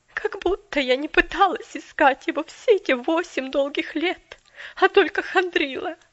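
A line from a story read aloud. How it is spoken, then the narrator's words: Majestic outburst, sobbing voice. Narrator (Russian): Величественно вспыхнула мисс Кэрри с рыданием в голосе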